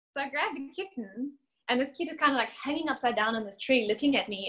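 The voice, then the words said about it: South African accent. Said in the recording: “obviously I've got this accent ... I am from South Africa”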